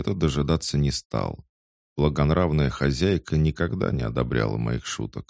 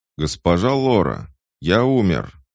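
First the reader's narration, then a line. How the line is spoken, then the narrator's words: Warning shout. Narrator (Russian): предупреждающе крикнул я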